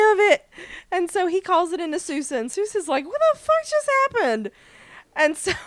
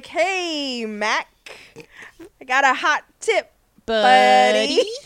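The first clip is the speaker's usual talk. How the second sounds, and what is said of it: Awkward, bad put-on American accent. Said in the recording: “conceal your accent ... So awkward and bad”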